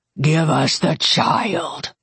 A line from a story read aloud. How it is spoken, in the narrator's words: Curran said, his voice a low growl